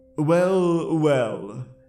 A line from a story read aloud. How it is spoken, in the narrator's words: slurred